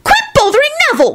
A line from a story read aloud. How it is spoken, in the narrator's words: Rosie shrieked